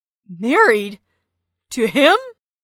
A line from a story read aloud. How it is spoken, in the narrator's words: gasped Xander